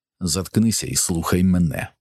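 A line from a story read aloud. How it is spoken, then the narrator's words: Strangled furious hiss. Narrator (Ukrainian): просичав здавленим від люті голосом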